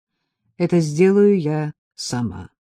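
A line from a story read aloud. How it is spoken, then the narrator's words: Gloomy reply, woman. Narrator (Russian): ответила я мрачно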